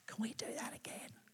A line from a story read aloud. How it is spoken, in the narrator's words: You'll be the one whispering